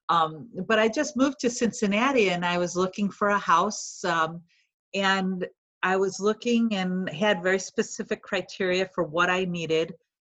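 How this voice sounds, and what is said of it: Chicago accent. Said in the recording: “I've been a Chicago girl all my life, if you haven't been able to tell from my accent.”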